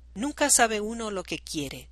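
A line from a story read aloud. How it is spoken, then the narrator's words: Sighing. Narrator (Spanish): suspira Anselmo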